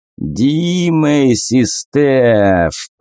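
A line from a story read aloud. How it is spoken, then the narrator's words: Drawl. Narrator (Russian): протянул он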